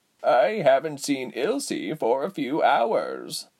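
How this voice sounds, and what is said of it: Raspy old woman's voice. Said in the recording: “with a raspy voice”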